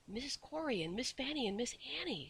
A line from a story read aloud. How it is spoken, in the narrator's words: said Jane in a whisper